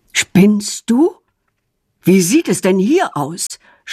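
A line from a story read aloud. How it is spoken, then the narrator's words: Loud scolding. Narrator (German): schimpft er laut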